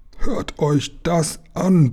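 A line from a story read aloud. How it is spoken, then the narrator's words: Furious roaring. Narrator (German): brüllte der Kapitän und bekam vor Wut einen knallroten Kopf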